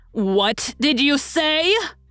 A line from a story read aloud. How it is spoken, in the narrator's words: cried my sister, beginning to scream